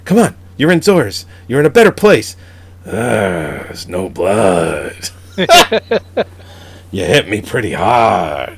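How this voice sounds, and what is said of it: Imitates another person's voice. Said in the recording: “do a Loggia impression ... I'm done with Robert Loggia”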